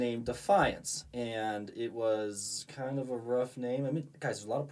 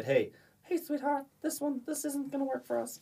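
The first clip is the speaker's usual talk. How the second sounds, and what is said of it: Imitates another person's voice. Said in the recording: “that's exactly actually how she sound ... it's a good impersonation”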